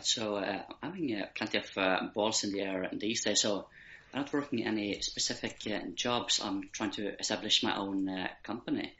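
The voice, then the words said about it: Norwegian accent with Irish twang. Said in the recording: “There is that Irish twang as well as the Norwegian accent.”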